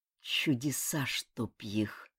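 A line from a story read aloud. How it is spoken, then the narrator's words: Muttering. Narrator (Russian): пробормотал Ким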